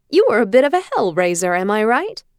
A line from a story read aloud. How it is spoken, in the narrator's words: He laughed